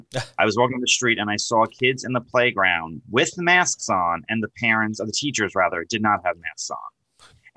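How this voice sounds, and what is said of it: New York accent. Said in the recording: “I'm from New York. If you couldn't tell by my accent”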